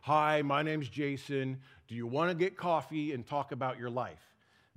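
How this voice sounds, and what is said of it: Deliberately lowered deep voice register. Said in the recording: “they have to lower the register of their voice to match mine”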